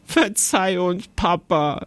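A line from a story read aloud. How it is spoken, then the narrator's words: Giggling speech. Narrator (German): sagte Jonathan kichernd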